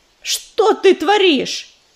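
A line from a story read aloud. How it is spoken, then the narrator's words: Angry bark. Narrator (Russian): сердито рявкнул он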